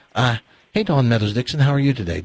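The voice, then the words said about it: Put-on British accent. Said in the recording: “I'll work on the British. Give Dawn your British. ... Isn't that good?”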